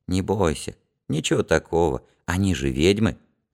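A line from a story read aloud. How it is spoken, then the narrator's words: Quiet answer. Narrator (Russian): Гелька тихо ответил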